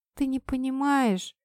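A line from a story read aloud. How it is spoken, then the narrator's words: Sobbing. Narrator (Russian): всхлипнула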